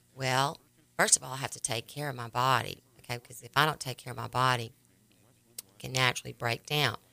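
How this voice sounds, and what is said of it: Raspy voice. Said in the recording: “normally raspy like this ... my voice that sounds like this ... making my voice raspy like this”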